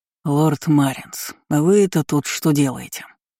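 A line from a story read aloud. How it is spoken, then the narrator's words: Tired question. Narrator (Russian): устало поинтересовался он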